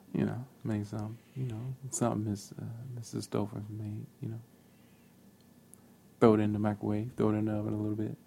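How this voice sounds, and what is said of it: Low, seductive sexy voice. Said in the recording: “stop using your sexy voice on here with me.”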